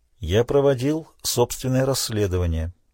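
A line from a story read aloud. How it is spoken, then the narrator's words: Quiet. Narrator (Russian): тихо произнес он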